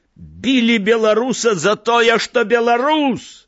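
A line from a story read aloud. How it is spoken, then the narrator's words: Shouting. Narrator (Belarusian): Крыкнуў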